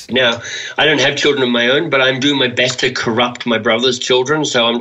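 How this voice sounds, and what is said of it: Noticeable regional accent. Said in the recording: “Which we can tell by your accent.”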